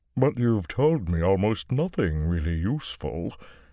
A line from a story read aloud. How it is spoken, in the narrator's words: the Ogier rumbled, a drum booming its disappointment